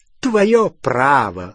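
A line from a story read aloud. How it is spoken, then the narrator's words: Scornful snort. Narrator (Russian): фыркнула Беллатриса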